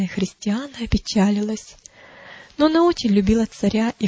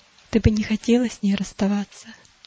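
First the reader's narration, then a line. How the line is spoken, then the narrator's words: Gentle question. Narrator (Russian): Няня ласково спросила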